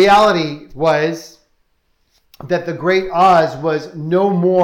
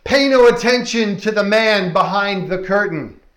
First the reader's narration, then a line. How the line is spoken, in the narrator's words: Oz bellows out